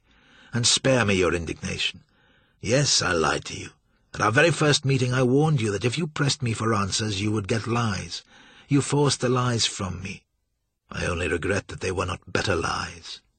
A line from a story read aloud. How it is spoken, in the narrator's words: Joshua said calmly